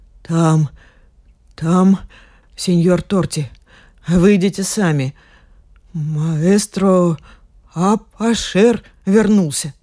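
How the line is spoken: Secretive breathy whisper. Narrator (Russian): Инес, словно желая сообщить им что-то по секрету, выдохнула

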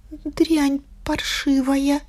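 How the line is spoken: Strained mumble. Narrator (Russian): напряглась и промямлила

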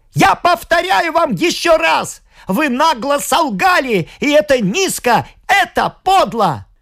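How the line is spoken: Child's sudden piercing shout. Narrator (Russian): мальчик, видя, что мать хочет заглушить его слова, вдруг пронзительно прокричал

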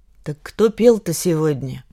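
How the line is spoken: Gloomy interruption. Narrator (Russian): мрачно перебила я

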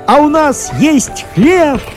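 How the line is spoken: Shouting. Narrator (Russian): кричали они

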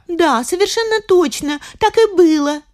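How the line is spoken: Shouted in unison. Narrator (Russian): закричали все в один голос

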